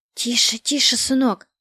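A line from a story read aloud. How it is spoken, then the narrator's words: Frightened whisper. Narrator (Russian): прошептала в испуге Скавронская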